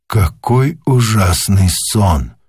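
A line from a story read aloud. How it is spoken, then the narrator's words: Whisper. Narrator (Russian): прошептал он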